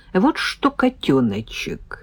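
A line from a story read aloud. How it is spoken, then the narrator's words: Very tender drawl. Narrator (Russian): Очень ласково протянул парень в красном свитере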